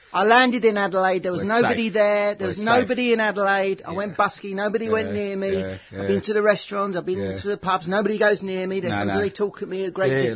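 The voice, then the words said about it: South East London accent. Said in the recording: “The accent is meant to be South East London. ... South East London, mate.”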